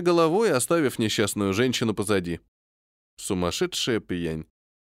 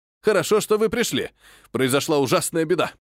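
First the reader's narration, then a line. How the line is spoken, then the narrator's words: Alarmed male shout. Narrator (Russian): Встревоженным тоном закричал он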